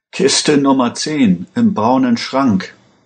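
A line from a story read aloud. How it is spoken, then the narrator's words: Salesman groaning. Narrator (German): stöhnte der Verkäufer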